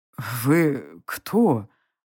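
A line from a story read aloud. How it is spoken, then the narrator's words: Stunned old man's mutter. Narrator (Russian): ошарашенно пробормотал старец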